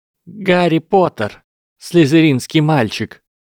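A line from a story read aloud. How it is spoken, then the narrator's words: Loud answer. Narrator (Russian): громко ответила она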